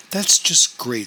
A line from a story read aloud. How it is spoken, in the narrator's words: said